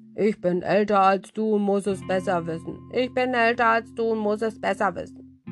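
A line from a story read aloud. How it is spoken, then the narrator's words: Grumpy parrot speaking. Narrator (German): Papagei, der zuletzt brummig wurde und nur noch sagte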